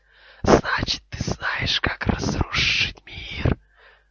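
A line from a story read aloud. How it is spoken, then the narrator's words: Cold hiss. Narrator (Russian): раздалось холодное шипение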